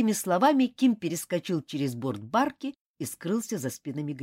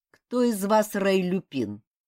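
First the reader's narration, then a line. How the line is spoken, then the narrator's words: Icy inquiry. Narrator (Russian): ледяным тоном осведомился он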